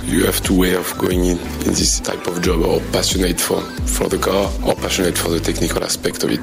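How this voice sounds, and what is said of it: French accent speaking English. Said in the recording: “I'm French, you can hear my accent.”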